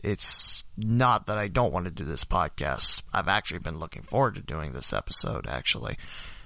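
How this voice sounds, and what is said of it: Sick, congested, low-energy voice. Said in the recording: “I'm feeling under the weather, so if you're wondering why my voice isn't as alive as it normally is ... sinus and congestion”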